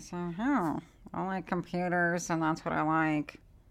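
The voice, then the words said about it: Terrible nerdy-voice impression. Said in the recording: “terrible impression”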